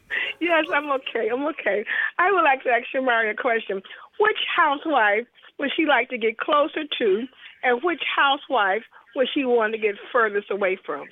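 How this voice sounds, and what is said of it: Hoarse, rough voice. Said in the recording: “I'm hoarse now ... you got a cold? ... Sound like she's smoking a little something”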